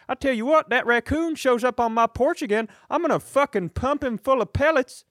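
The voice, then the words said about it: Put-on rural Southern-style accent. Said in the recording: “that's not just a Southern accent”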